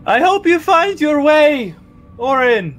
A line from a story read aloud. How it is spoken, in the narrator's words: he'll shout down the tunnel